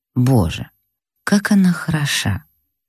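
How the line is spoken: Lustful whisper. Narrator (Russian): прошептал сладострастным шепотом

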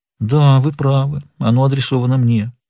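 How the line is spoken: Sad speech. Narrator (Russian): печально кивнула головой и сказала

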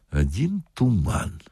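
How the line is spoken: Quiet. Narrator (Russian): сказал милиционер тихо дежурному

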